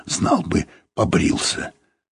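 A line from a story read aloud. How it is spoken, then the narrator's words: Hoarse whisper. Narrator (Russian): кто-то сказал кому-то сипловатым шепотом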